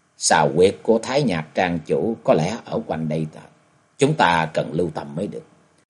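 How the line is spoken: Soft, hushed. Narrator (Vietnamese): Vì kế quan khẽ nói

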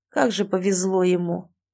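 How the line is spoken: Sigh with hostile sniff. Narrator (Russian): вздохнул Эрик, недобро засопев

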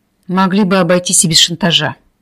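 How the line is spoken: Glum inner thought. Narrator (Russian): уныло подумала Кира

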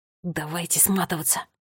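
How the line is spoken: Hiss. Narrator (Russian): прошипел Милан

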